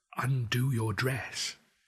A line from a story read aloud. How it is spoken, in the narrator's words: voice dropped to a whisper